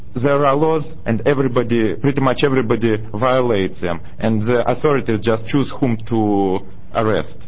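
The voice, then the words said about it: Foreign accent from the Soviet Union. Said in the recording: “As you have noticed, I have an accent. I am originally from the Soviet Union”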